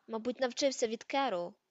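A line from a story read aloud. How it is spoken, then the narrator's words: Sullen grumble. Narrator (Ukrainian): похмуро буркнув Гаррі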